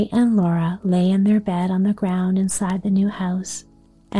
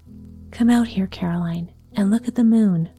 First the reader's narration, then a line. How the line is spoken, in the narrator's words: He called back softly